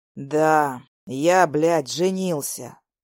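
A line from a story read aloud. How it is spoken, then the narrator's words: Slow exhale. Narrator (Russian): Медленно выдыхаю я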